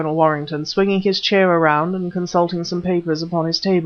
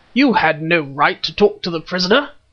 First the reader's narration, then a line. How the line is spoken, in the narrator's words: roared Colonel Warrington